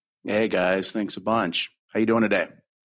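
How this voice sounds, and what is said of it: Flat, low-energy delivery. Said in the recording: “you sound really excited.”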